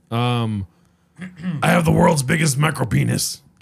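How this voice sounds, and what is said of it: Imitates another person's voice. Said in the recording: “Can you do an Alex Jones impersonation? ... That was pretty good.”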